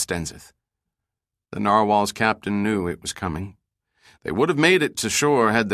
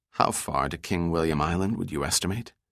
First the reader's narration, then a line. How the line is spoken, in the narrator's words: he quietly asked